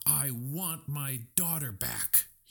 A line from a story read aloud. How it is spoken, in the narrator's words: he yelled